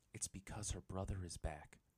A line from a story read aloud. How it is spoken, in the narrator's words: Yue said quietly